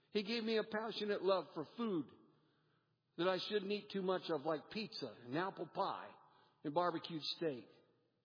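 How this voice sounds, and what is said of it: American accent. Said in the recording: “from Dayton, Ohio, with a U.S. accent”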